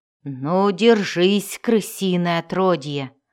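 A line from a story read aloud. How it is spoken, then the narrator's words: Growled. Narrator (Russian): зарычал он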